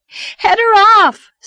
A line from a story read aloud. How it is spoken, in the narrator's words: screamed Anne